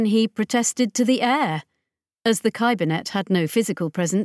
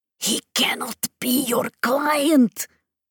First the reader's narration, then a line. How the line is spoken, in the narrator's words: Ascaro hissed at her